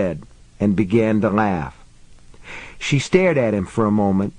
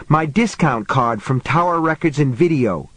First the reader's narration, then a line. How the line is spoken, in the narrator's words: snapped